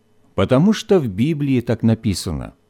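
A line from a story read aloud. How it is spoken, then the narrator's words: Calm explanation. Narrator (Russian): спокойно пояснила мама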